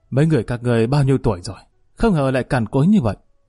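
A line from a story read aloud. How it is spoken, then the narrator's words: Sudden cold voice. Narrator (Vietnamese): sau lưng bọn họ đột nhiên vang lên một âm thanh lạnh lùng nói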